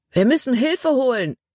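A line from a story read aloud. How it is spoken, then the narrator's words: Called out. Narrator (German): rief Caleb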